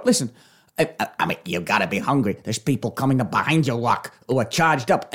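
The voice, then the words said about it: Imitates another person's voice. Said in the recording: “I'm doing my impression.”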